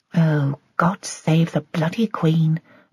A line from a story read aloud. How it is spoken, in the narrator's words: muttered Joy